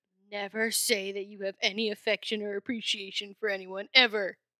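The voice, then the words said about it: Funny put-on voice. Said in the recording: “I'm just making a funny voice.”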